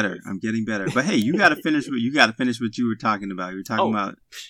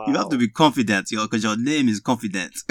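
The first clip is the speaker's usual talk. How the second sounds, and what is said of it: Put-on Nigerian accent. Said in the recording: “he is hilarious with these Nigerian accents.”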